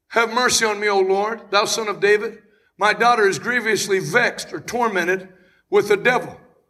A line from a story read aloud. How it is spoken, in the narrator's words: a woman cried to him, saying